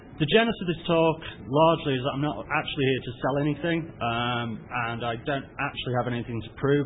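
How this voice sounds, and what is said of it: British accent. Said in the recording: “as you can probably tell by the accent, I'm based in the UK”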